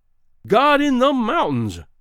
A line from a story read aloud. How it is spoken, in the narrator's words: cried Greenbrier